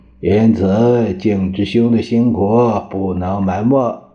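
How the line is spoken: Cold, angry. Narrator (Chinese): 蒋介石越想越气，冷冷的说道

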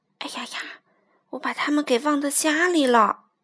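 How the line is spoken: Muttering. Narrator (Chinese): 菲利克斯嘴里还嘀咕着

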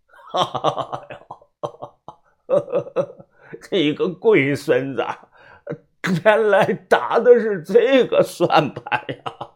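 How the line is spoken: Chuckling. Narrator (Chinese): 我只是嘿嘿一笑

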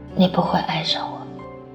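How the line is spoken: Low, pleading voice. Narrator (Chinese): 他低声的哀求他

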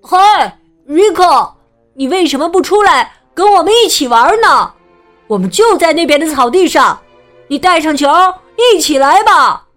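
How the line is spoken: Shouting. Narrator (Chinese): 他喊道

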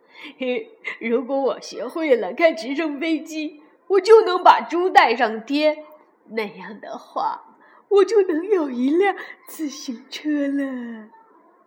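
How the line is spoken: Laughing. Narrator (Chinese): 罗菲笑了

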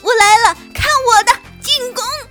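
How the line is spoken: Laughing and shrieking. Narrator (Chinese): 两个好朋友尽情地笑着、尖叫着

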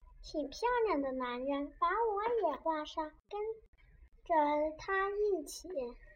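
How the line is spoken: Girl speaking quietly. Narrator (Chinese): 这女孩子并不十分挑剔，并小声说

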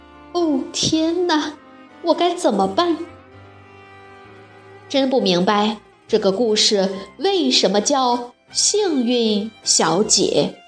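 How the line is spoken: Sighing. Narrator (Chinese): 他叹了口气说

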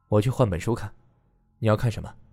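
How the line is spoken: Calm, indifferent. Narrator (Chinese): 他淡淡说道

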